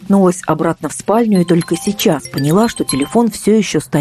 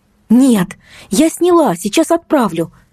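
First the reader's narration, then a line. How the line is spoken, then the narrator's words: Terrified shout. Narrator (Russian): закричала я с ужасом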